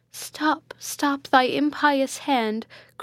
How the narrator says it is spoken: cried Matilda

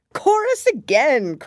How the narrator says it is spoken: cried the Gryphon

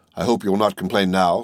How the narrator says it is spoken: said the jeweler

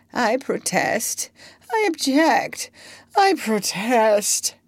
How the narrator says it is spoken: he was still feebly murmuring

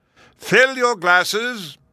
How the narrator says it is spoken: he thundered

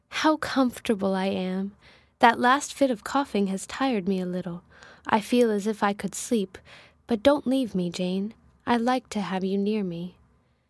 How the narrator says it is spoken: Presently she said, in the sweetest tone

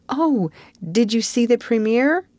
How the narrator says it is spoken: exclaimed Anne at once

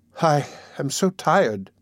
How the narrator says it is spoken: said, with a quick intake of the breath, and a sigh, drooping her head wearily

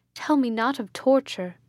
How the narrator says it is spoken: cried

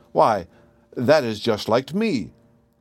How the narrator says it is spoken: cried the youth

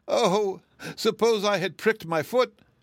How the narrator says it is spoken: she wailed

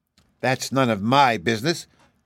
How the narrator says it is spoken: growled the kitten

